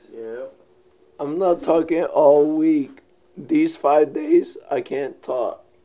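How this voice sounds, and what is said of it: Hoarse, strained failing voice. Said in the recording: “Your voice do not sound good. ... It sounds painful, too. ... my voice is going away”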